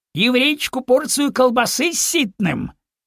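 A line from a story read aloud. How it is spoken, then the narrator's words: Loud grinning servant. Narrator (Russian): Мятый половой оскалился и громко сказал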